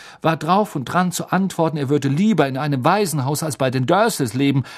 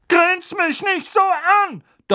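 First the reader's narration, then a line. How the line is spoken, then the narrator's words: Thundering aunt. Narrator (German): donnerte Tante Magda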